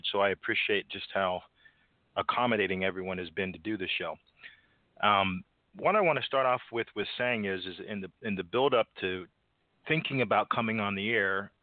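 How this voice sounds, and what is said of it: Stuffy, congested voice. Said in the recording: “as you can probably hear in my voice, my allergies are bothering me”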